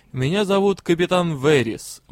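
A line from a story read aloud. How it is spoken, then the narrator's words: Grim. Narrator (Russian): мрачно произнесла она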